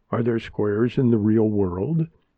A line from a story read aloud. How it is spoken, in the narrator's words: Maya giggled at herself